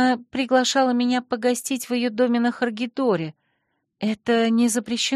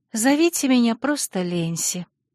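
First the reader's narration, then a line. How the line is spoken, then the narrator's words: Request, sad sigh. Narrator (Russian): попросила и невесело вздохнула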